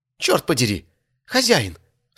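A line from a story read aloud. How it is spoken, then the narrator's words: Cry. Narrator (Russian): вскрикнула Грима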